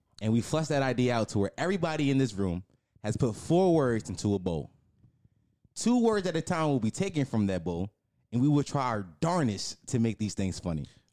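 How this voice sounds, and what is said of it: Put-on radio announcer voice. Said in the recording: “my good radio voice”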